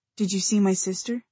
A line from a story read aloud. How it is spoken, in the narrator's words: Luke said, his voice gentle